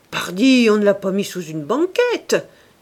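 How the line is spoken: Laughing. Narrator (French): dit Gilles Quint en riant

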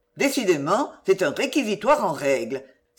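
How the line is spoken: Exclaimed, doctor. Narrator (French): s'écria le docteur Saignebosse

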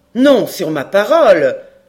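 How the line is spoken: Sharp exclamation. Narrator (French): s'écria vivement le major

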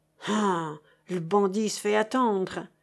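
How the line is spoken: Sighing. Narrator (French): soupirait chéri Bibi

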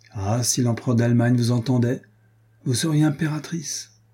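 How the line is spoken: Exclaimed. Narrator (French): s'écria Don Gaspard

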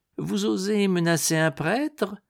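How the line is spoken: Venomous spiteful voice. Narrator (French): fit le moine d'une voix fielleuse

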